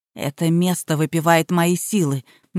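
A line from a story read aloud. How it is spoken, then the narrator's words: Doubtful mutter. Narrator (Russian): недоверчиво пробормотал Ян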